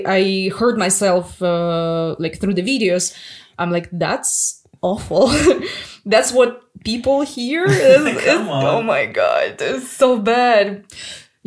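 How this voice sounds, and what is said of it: Russian accent. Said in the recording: “jokes about Russian accent”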